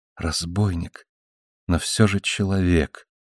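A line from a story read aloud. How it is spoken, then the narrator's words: Whisper. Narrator (Russian): прошептала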